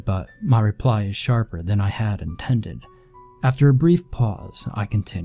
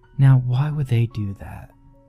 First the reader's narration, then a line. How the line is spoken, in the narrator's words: Her tone as calm as ever